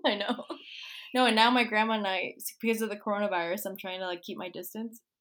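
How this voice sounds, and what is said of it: Miami accent. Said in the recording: “I even have, like, the Miami accent that probably been strong out”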